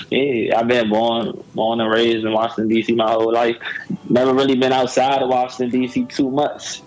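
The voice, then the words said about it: Southern-sounding American accent. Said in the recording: “this accent? ... you sound country as hell. Like, you from somewhere really, really down south”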